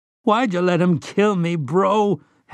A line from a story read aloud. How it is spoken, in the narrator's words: Henry sobbed